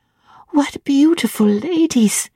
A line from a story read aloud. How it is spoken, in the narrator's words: cried she in English